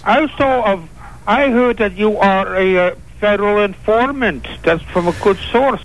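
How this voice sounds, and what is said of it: Bad fake cartoon-villain accent. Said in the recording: “that is the worst phony accent I've ever heard ... That's almost like, what's the guy on Bullwinkle? Boris Badenov.”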